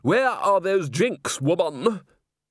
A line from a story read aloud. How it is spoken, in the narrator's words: Somewhere out in the corridor, a young man's voice bellowed